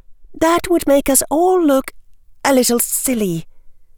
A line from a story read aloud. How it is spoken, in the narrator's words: General Granger said in a careful voice